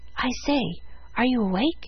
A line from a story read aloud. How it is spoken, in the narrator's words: Presently a voice whispered